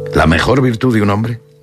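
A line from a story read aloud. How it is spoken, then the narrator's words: Plain. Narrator (Spanish): dijo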